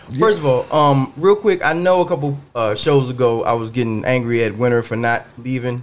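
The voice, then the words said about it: Raspy, slightly sick voice. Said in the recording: “my voice is a little raspy, ... I'm a little bit under the weather”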